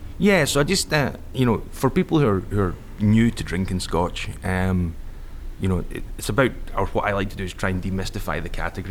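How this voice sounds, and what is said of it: Unusual non-local accent. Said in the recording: “you got a fucking weird accent, dude”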